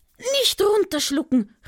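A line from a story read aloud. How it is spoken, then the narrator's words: Horrified cry. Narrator (German): rief Ara entsetzt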